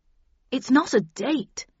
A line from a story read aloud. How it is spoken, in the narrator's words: exclaimed Arnold quickly